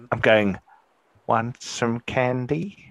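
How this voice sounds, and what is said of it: Creepy clown character voice. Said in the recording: “That impression was a little bit more Pennywise the Clown than Predator”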